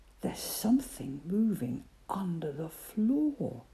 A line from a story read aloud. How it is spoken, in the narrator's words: whispered Percy